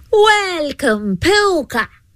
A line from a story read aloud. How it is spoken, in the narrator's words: she called out